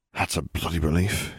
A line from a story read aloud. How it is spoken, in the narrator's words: he muttered